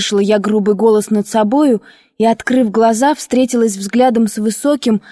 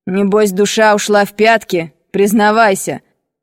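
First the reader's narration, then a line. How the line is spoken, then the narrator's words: Menacing, amused mountaineer. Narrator (Russian): Продолжал горец, как бы забавляясь моим смущением, спросил грозно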